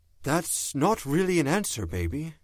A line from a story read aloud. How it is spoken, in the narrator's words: he said, very gently